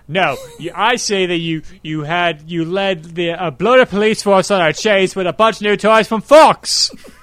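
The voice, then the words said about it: Cockney accent impression. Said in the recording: “young Michael Caine in my impression... I'm not old Michael Caine. I'm more cockney as him.”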